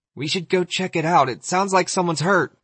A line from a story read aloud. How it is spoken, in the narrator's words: Yosef said, having to yell over the music now